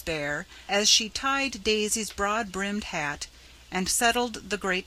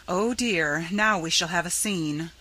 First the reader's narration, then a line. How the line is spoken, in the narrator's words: sighed Mrs